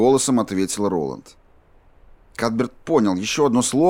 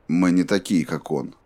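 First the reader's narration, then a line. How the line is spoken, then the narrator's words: Even voice. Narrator (Russian): ровным голосом ответил Роланд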